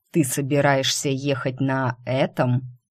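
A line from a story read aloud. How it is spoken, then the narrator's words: Incredulous snort. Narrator (Russian): недоверчиво хмыкнул Лунный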